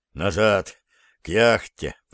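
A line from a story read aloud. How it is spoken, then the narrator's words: Mumbled. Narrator (Russian): пробормотал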